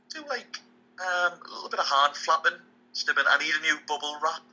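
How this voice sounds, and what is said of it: Strong, powerful accent. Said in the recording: “with your accent, it's so good when you say it. It's strong and powerful.”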